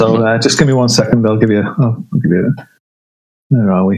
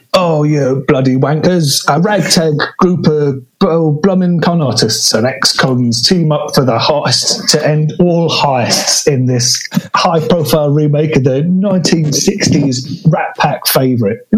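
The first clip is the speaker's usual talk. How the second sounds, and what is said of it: Exaggerated put-on Cockney accent. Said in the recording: “in your um, worst Cockney accent”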